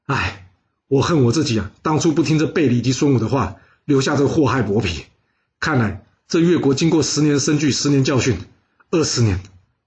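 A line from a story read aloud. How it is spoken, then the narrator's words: Sighing. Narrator (Chinese): 伍子胥叹了口气说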